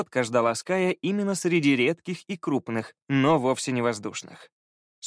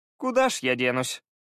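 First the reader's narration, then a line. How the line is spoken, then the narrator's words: Resigned sigh. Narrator (Russian): Обреченно вздохнул Фаул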